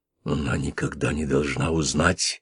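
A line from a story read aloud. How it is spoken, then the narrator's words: Whispered in the dark. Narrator (Russian): прошептал он в темноте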